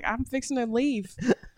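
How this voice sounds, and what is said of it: Put-on Southern US drawl. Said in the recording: “my accent comes out when I'm tired ... If I sound like George W.”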